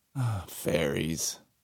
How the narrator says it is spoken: Magnus said with a sigh

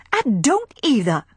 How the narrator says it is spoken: she cried hotly

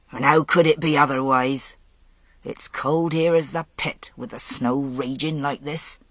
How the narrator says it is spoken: one of his men growled

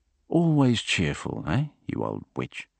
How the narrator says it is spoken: muttered Jean-Guy

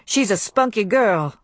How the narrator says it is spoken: said Tony

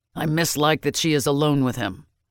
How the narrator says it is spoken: the old warrior said fiercely

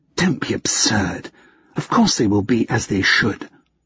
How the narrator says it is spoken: she hissed

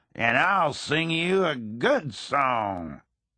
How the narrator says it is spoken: he roared back at them

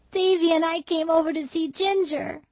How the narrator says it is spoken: sobbed Dora

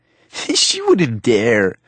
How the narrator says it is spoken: Joel laughed

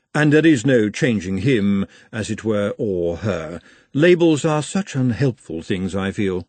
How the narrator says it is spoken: said Madame calmly

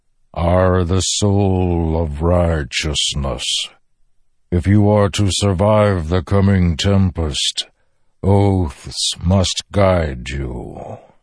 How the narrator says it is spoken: the Stormfather rumbled

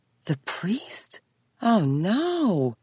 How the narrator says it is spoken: Mary moaned

